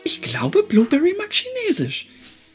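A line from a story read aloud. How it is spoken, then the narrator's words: Giggling. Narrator (German): Helena kicherte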